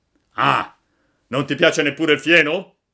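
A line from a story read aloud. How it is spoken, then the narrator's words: Crazed master shouting. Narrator (Italian): gridò il padrone impizzito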